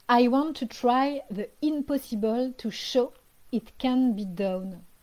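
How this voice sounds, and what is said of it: Strong French accent in English. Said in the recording (French): “mon accent tout pourri”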